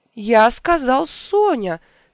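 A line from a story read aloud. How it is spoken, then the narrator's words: Indignant exclamation. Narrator (Russian): негодующе воскликнул Коломель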